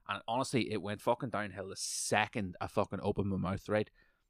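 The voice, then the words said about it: Irish accent. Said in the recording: “an Irish accent”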